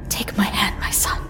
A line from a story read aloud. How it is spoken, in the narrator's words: Imam Khan said with an urgent whisper